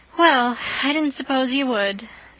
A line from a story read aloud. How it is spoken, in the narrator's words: said Jane with a resigned sigh